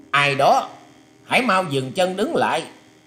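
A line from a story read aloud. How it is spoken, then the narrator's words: Hidden shouted command. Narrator (Vietnamese): từ sau một gốc cây to đã có tiếng quát rằng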